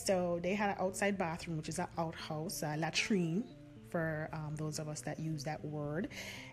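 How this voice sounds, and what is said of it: Jamaican accent coming through. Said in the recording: “You can hear my accent coming out now, right?”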